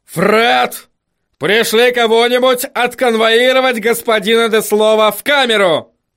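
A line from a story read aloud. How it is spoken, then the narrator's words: Yelling. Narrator (Russian): заорал он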